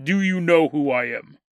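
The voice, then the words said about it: Disguised voice-changer voice. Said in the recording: “I don't know if he had a voice changer, but we will pretend that he did.”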